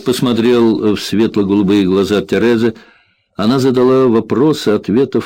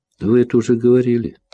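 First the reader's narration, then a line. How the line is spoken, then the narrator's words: Sigh. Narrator (Russian): вздохнул Джек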